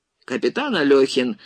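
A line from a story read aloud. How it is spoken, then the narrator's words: Irritated. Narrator (Russian): раздраженно продолжал Егоров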